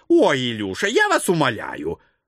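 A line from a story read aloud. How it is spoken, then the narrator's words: Irritated. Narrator (Russian): раздраженно черт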